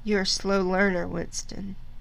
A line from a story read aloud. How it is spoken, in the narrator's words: said O'Brien gently